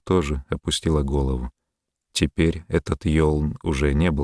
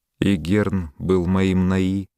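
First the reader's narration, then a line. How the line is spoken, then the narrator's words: Sad. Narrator (Russian): печально проговорила она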